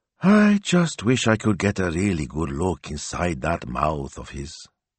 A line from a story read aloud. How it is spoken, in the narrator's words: said wistfully